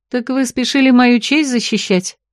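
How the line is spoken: Snide, mocking. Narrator (Russian): ехидно спросила Марго, когда первый страх прошел

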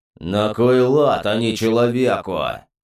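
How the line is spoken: Booming drone. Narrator (Russian): прогудел Кубахтон

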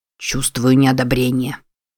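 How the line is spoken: Grumbled. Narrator (Russian): проворчал Амбруаз

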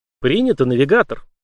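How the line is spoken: Calm AI reply. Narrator (Russian): спокойно отозвался ИИ

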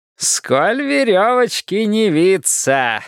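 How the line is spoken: Pleased, booming laugh. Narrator (Russian): сказал Слоттер и захохотал своим похоронным колоколом, весьма довольный собственным остроумием

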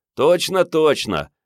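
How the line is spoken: Joyful distant yell. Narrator (Russian): радостно завопил из машины Генка

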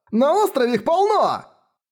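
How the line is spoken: Exclaiming, cracking into falsetto. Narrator (Russian): Сорвавшись на фальцет, воскликнул мужчина

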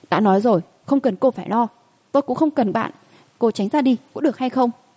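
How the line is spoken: Angry teenage boy's outburst. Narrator (Vietnamese): Tức giận, thiếu niên hoàn toàn bộc phát

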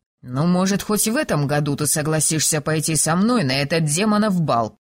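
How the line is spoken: Grumbled. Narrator (Russian): проворчал Кирст

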